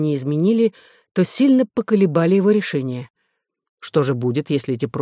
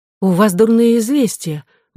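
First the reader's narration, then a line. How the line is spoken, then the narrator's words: Exclaiming. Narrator (Russian): воскликнула она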